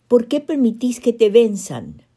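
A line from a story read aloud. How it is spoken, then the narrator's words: Pleading stammer. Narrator (Spanish): balbuceó una garganta suplicante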